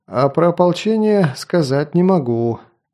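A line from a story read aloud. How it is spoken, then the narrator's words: Sighing. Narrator (Russian): вздохнул Дак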